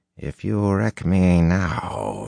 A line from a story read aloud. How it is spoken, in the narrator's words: she growled in a threatening tone